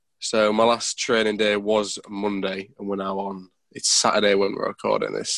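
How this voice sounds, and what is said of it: Sick-sounding voice. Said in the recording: “I'm ill, as you can probably tell by my voice”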